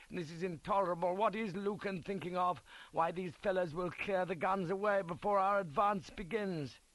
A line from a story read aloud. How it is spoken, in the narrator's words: cries